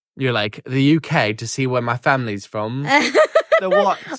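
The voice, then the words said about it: Attempted British accent. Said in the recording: “what's with the accent? ... That was my attempt at a British accent.”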